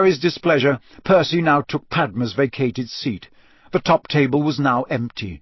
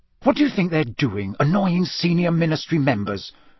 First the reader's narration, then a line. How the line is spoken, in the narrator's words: Percy hissed, watching Fred and George suspiciously